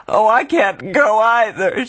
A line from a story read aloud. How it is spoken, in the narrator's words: she wailed